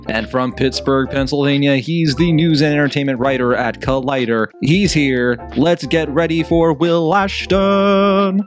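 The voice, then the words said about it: Announcer radio voice. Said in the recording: “the announcer radio voice you do”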